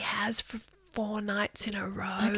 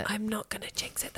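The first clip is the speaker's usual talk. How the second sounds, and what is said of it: Whispering. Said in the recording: “That's why I'm whispering it.”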